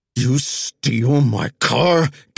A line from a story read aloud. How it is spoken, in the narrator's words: Cap roared